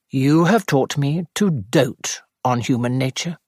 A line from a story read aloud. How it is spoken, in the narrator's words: said Sir Henry solemnly